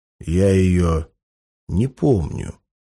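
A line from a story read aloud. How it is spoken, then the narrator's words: Plain. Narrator (Russian): сказал О'Брайен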